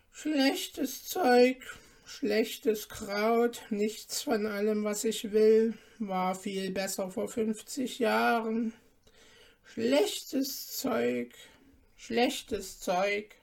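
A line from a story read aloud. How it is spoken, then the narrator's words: Murmuring. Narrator (German): murmelte sie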